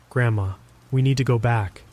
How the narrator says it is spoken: said, my voice steady despite the fear

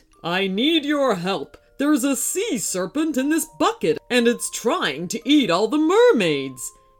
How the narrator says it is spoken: boomed

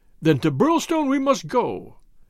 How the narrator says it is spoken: cried MacDonald

